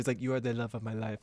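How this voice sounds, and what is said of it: Imitates a man's foreign accent. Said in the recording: “doesn't he have an accent?”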